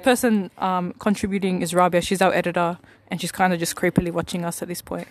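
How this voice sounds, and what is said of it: Heavy Middle Eastern accent. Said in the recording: “I've got a very heavily Middle Eastern accent.”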